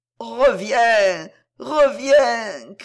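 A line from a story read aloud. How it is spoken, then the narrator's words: Horn calling loudly. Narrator (French): criait la trompe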